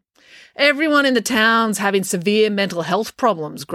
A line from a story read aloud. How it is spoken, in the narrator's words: grumbled April